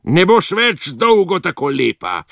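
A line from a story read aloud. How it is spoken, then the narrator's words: Witch howling. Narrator (Slovenian): Čarovnica je zatulila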